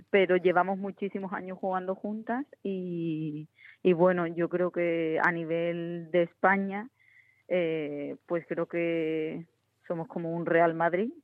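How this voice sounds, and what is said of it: Non-Spanish accent speaking Spanish. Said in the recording (Spanish): “somos varias de fuera, como podéis notar por mi acento”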